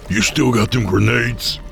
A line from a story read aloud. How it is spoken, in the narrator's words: Hank barked at Creed